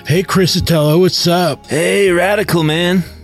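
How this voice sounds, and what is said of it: Put-on West Coast surfer accent. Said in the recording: “this totally gnarly West Coast accent that comes from surfer culture ... that accent”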